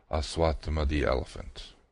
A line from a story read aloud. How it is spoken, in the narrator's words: added softly under his breath